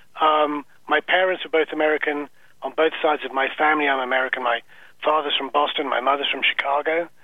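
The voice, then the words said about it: English accent. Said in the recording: “I just have a strange accent. ... I was born and raised in England, so I've never shaken the accent.”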